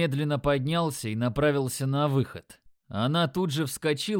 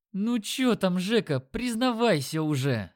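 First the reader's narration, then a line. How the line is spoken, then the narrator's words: Moaning. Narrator (Russian): стонал везунчик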